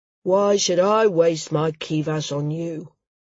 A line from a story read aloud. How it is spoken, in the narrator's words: rumbled